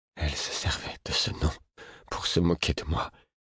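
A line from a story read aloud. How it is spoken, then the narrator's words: Murmured. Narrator (French): murmura-t-il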